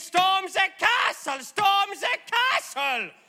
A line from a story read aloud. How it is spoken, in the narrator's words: angry villagers shouting